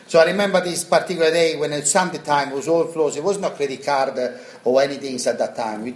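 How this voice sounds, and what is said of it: Strong foreign accent. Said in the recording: “my accent, I can never change it after ... you sound like you come yesterday”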